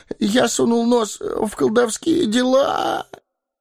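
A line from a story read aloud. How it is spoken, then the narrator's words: Whimpering. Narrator (Russian): захныкал Пипин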